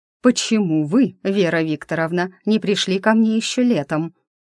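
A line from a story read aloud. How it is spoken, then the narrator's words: Icy furious through teeth. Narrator (Russian): с ледяной яростью процедила ректорша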